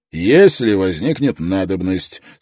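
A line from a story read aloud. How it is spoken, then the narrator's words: Calm reply. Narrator (Russian): спокойно ответил Строн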